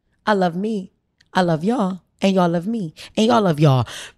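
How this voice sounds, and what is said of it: Imitates another person's voice. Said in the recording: “in my best Pam voice”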